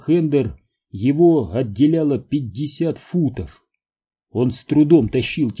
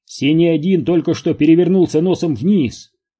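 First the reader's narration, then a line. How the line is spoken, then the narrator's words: Shout. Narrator (Russian): прокричал один из операторов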